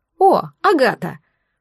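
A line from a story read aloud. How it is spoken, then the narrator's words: Cheerful. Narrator (Russian): проговорила весело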